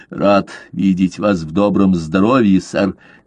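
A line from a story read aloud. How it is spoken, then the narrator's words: Plain. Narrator (Russian): сказал он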